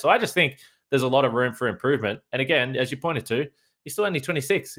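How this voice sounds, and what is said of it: Australian accent. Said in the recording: “talking to us all the way from Australia. You can notice it in the accent.”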